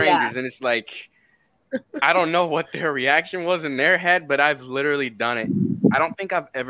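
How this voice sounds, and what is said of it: Usual voice. Nothing is said of it.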